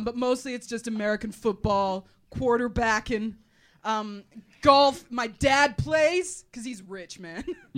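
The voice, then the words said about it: Shoddy put-on American accent. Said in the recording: “how shoddy is my American accent? I haven't had to fucking do one of these for a few years, and I didn't practice”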